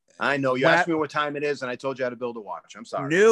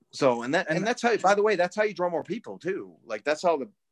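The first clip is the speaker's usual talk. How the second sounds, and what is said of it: Yelling, loud emphatic speech. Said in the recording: “I'm yelling at you now”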